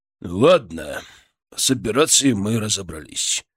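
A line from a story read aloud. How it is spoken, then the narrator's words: Tired. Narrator (Russian): начал устало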